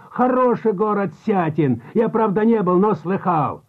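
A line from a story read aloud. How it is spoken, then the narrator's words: Shout. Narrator (Russian): опять закричал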